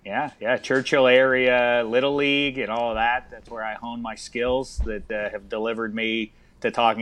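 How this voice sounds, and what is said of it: Pittsburgh Yinzer accent. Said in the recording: “you're dropping that beautiful Yinzer accent.”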